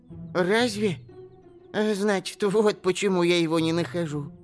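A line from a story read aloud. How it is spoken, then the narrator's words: Relieved mutter. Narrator (Russian): пробормотал эльф, и у него словно камень с души свалился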